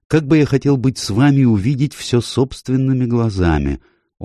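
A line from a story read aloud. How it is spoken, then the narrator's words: Dreamy, childlike. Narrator (Russian): произнес это мечтательным тоном, совсем как маленький ребенок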